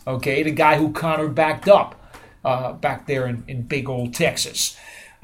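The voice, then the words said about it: Unconvincing put-on accent. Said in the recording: “Was that an accent? ... I tried it. I don't think it worked too well. ... not a Jersey guy like you ... Did not work”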